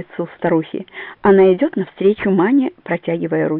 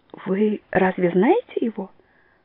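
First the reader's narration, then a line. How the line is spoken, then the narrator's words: Timid question. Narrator (Russian): робко спрашивает Маня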